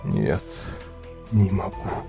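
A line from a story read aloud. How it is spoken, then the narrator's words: Whispered. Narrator (Russian): прошептал Андрей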